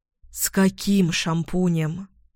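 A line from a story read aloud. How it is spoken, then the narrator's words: Tired question. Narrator (Russian): Устало спрашиваю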